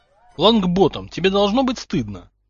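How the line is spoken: Stern. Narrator (Russian): строго сказал Гарри Поттер

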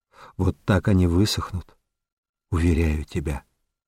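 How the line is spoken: Barely audible. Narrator (Russian): промолвил чуть слышно

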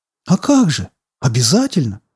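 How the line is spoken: Joyful assurance. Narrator (Russian): радостно заверил я его

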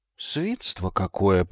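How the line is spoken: Muttering. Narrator (Russian): пробормотал Магнан

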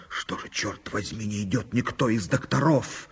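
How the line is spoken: Puzzled hiss. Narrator (Russian): барон, прошипев на лестнице недоуменно

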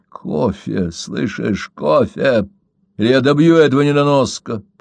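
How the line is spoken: Growled. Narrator (Russian): прорычал он

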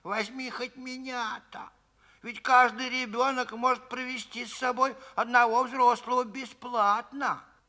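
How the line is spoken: Pleading. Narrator (Russian): бабушка взмолилась

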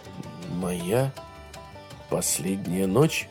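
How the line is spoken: Muttered. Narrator (Russian): пробормотал Грей

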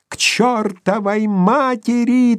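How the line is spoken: Thin sickly echoing shout. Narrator (Russian): тонко закричал он, и его больной голос разнесся по сводам

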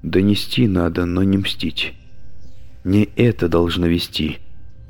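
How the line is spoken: Muttering. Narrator (Russian): пробормотала она

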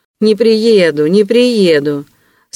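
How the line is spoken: Smug laughter. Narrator (Russian): самодовольно смеялся Вельчининов

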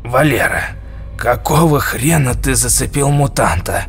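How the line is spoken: Angry breathless wheeze. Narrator (Russian): Отдышавшись злобно, прохрипел дядя Жора

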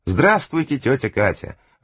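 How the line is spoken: Joyful greeting. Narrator (Russian): радостно приветствовала ее Вика

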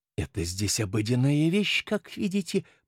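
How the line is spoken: Whispered. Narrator (Russian): прошептал мистер Симон Ток своему отцу

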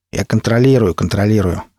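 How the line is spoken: Plain. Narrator (Russian): ответил он

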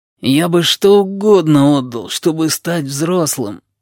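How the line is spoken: Groaning. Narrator (Russian): простонал сиамец

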